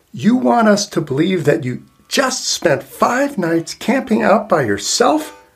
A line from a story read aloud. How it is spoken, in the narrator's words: yelled